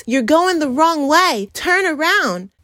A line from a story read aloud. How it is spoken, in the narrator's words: the parents, yell to the kids